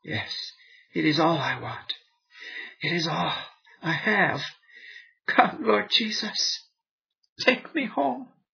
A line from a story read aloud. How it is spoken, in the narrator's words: wife, in a feeble, though clear voice, said